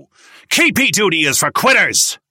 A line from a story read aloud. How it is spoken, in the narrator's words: He shouted